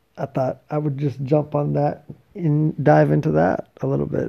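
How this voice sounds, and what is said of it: Hoarse, tired, slow voice. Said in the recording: “my voice is torched and I'm tired ... slow, slow. Slow, slow.”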